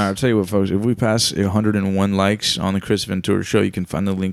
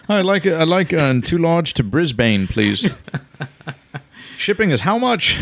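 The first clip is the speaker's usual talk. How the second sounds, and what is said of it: Put-on Australian accent. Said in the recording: “with an Australian accent”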